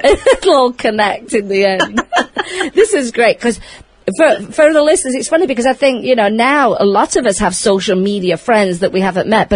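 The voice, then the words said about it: British accent. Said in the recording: “I had a British accent”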